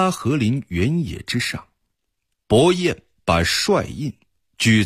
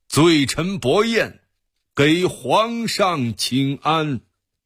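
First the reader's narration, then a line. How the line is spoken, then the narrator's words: Loud. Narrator (Chinese): 伯彦大声说道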